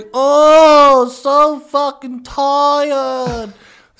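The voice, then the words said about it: Imitates another person's tired whiny voice. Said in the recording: “That's my impression of Chris.”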